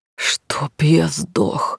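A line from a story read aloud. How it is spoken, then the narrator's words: Growling, hysterical laughter. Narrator (Russian): рычал Ник и истерически хохотал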